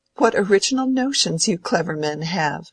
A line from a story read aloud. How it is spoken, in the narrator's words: said Rosamond, dimpling with more thorough laughter than usual